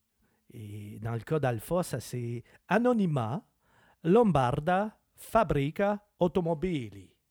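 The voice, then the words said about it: Put-on Italian accent. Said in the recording (French): “J'espère que j'ai un bon accent italien.”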